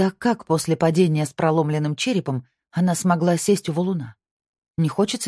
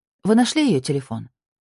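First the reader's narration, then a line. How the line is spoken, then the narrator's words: Plain question. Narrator (Russian): спросила я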